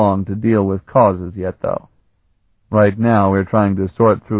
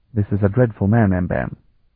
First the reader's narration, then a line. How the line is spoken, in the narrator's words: he said in a hushed tone